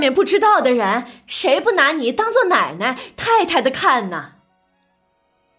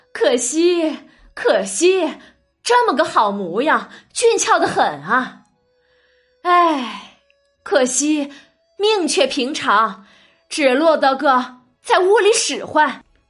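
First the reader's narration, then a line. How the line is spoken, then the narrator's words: Laughing and sighing. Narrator (Chinese): 李纨 笑着叹着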